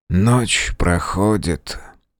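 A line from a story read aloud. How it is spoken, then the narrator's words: Muttered after a sip. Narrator (Russian): пробормотал он после первого глотка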